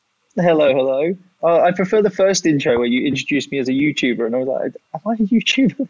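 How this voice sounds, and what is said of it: Distinctive accent. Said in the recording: “he has a fucking amazing accent”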